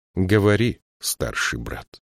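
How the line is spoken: Plain. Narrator (Russian): сказала она

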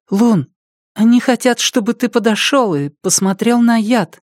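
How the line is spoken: Timid. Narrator (Russian): Она робко сказала

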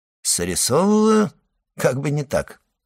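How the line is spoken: Calm reply. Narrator (Russian): спокойно отвечал тот

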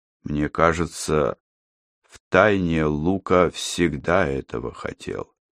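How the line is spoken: Old man, still even voice. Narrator (Russian): по-прежнему ровным голосом произнес старик

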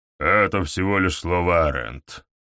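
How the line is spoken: Dismissive snort. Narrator (Russian): фыркнул Гаур

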